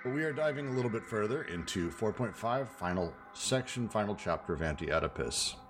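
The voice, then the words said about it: Flat, tired, unenthusiastic voice. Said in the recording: “I was up all night working, so my brain is not in a great place ... Extremely excited to be here today, as you can tell from how excited my voice is.”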